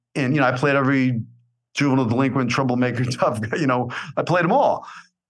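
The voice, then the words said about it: New York accent. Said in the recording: “you got to get rid of that New York accent ... this is who I am”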